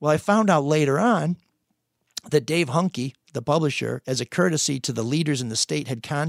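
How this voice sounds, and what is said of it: Usual voice. Nothing is said of it.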